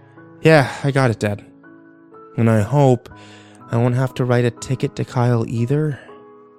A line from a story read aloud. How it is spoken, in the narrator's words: sighed